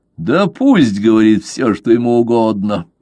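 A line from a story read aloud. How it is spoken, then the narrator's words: Laughing with relief. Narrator (Russian): засмеялся Левассер, все еще находясь под впечатлением огромного облегчения, испытанного им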